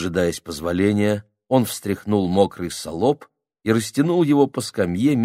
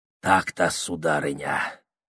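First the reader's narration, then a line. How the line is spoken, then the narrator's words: Whisper. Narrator (Russian): шептал он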